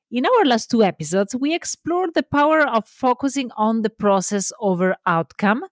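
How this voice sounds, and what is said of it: Italian accent. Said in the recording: “I'm Italian, so love my accent”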